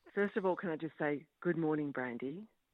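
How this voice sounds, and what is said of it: Attempted sexy, sultry voice. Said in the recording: “That was my best attempt at a sexy voice for Valentine's Day.”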